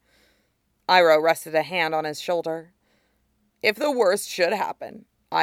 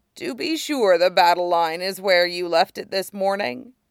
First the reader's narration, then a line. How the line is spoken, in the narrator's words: Iroh chuckled